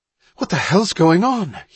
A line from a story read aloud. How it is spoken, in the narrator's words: he panted